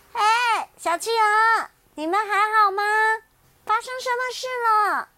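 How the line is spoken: Loud shout. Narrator (Chinese): 小熊大声的喊

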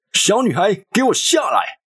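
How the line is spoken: Thunderous angry roar. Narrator (Chinese): 这声怒吼响彻云霄

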